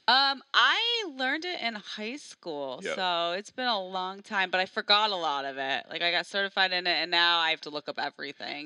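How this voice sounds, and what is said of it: Midwestern Chicago accent. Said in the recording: “Midwestern English, so I apologize for my accent because I'm from Chicago”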